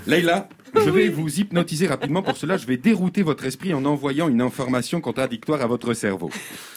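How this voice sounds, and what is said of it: Put-on accent. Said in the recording (French): “Pourquoi cet accent ?”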